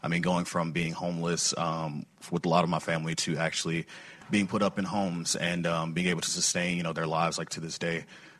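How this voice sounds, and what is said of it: Choked-up, emotional voice. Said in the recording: “I'm getting like a little choked up.”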